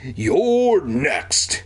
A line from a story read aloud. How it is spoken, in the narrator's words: he roared at me